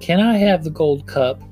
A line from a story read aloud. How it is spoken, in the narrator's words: in a bashful voice, she said